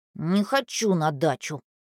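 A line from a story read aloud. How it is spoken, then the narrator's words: Grandson's sullen mutter. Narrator (Russian): буркнул внук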